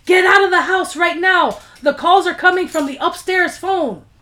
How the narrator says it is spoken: the operator from the police station who yelled

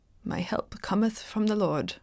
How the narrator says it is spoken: murmured Henry

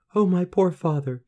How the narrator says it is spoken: sobbed

